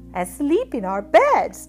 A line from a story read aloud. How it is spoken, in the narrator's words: Doc exclaimed